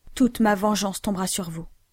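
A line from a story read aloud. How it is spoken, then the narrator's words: Exclaiming with a curse. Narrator (French): s'écria-t-il avec un serment exécrable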